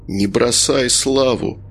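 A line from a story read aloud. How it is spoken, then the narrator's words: Calm. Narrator (Russian): спокойно произносит Женя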